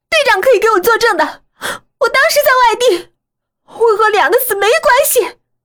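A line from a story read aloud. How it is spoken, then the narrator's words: Echoing cry. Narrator (Chinese): 宿舍里回荡着冯小婉的叫声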